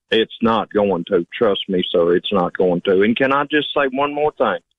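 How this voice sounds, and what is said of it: Rural hillbilly accent. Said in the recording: “Do you think you have an accent? ... Yes, sir. I know I do. I'm a hillbilly.”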